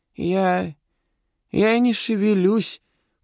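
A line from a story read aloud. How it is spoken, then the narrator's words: Squeaky suspect's voice. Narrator (Russian): пропищал подозреваемый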